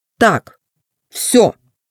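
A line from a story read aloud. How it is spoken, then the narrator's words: Bumblebee's commanding voice. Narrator (Russian): командным голосом сказал шмель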